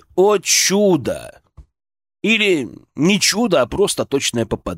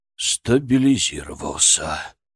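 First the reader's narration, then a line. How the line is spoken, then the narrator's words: Disbelieving exhale. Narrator (Russian): выдохнул, наконец, Конюхов, неверяще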